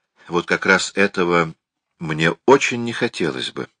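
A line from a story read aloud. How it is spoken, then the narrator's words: Soft. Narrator (Russian): мягко сказала она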